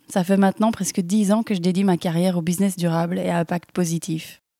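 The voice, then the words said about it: Slight Belgian French accent. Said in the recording (French): “je suis belge, si vous demandez euh, d'où vient ce petit accent”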